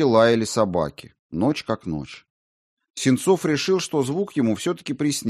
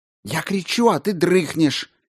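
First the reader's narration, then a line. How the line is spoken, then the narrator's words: Loud whisper. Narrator (Russian): громко прошептала Царяпкина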